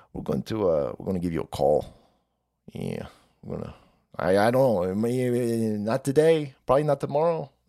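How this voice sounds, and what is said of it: Put-on Italian mafia accent. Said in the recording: “That's some Italian shit. I know. I can't do an Italian accent.”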